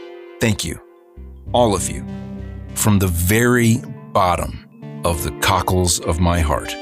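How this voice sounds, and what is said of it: Usual voice. Nothing is said of it.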